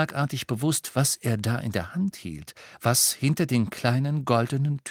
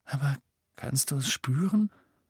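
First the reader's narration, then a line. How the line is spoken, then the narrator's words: Quiet question. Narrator (German): fragte Ron leise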